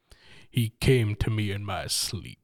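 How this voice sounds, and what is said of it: Deep, smooth radio voice. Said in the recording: “your deepest, smoothest radio voice”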